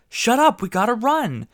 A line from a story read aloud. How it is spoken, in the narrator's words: kid yelled